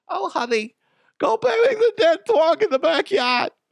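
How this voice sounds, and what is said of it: Mother's voice, New England accent. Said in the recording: “Why does my mom have an accent today? Like a New England accent.”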